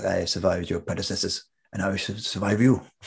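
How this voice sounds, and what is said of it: Imitates the Merovingian, not very well. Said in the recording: “not doing a very good impersonation of it”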